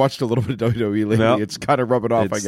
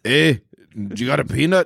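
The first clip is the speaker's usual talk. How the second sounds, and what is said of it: Scottish accent, Groundskeeper Willie impression. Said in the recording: “What does an elephant sound like that has a Scottish accent? Do groundskeeper Willie”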